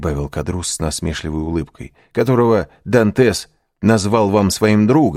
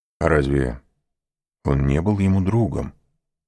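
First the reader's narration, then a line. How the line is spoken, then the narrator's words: Plain. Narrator (Russian): спросил аббат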